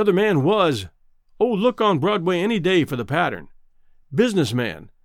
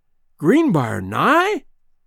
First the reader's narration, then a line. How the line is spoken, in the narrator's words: he exclaimed